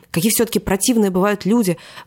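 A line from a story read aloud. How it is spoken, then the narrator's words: Exclaiming. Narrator (Russian): воскликнул он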